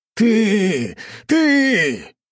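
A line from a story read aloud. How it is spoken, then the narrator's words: Shouting. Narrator (Russian): прокричал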